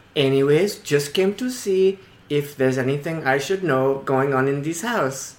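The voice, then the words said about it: Put-on accent. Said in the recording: “I promise you my accent is real.”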